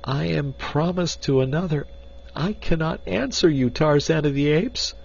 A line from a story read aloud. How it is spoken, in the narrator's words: she cried